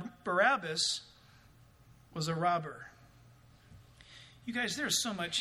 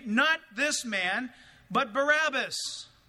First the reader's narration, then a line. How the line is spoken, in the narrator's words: they all cried out again, saying